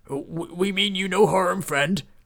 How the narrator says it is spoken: stammered Beef

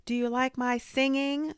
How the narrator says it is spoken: Sophia asked loudly

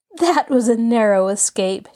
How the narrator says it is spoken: she laughed

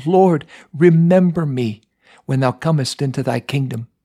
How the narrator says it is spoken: cried out

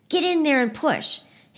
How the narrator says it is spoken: Someone yells to Nick

